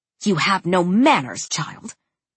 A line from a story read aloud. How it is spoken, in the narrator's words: hissed